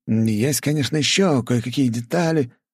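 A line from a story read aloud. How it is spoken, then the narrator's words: Confused mumble. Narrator (Russian): растерянно пробормотал Пухляш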